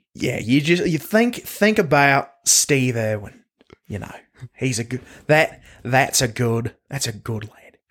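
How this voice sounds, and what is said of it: Put-on Australian accent. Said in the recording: “It's really easy to do an Australian accent. You just get real into it.”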